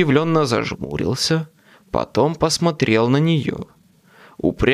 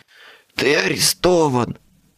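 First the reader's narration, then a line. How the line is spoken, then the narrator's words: Hoarse rasp. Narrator (Russian): прохрипела она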